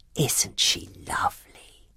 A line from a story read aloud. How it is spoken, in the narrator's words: whispered Mrs